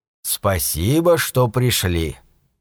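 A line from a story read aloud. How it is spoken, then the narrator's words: Quiet, even voice. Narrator (Russian): тихим ровным голосом заговорил Дель Рей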